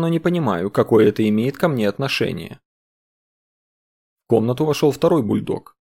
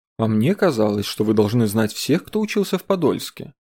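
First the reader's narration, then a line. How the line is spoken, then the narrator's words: Innocent tone. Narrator (Russian): невинным голосом сказал Дронго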